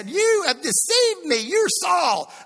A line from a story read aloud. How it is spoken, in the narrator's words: the woman, she cried out at the top of her voice and said